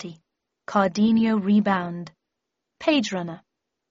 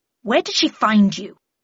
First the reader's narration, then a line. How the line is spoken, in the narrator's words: snapped Harris